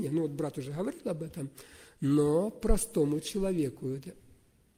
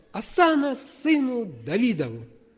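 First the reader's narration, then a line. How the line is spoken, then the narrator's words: Very loud shouting. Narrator (Russian): громко-громко стали кричать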